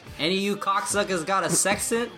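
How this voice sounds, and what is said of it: Poor attempt at Boston accent. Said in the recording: “That was my poor attempt at a Boston accent.”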